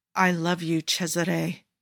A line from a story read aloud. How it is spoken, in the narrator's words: Jafar growls